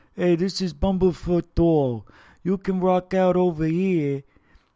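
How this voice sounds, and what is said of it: Imitates another person's foreign accent. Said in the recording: “That guy is amazing, the way he talks. I love his accent... I know he's from another country or something or whatever, but he sounds like”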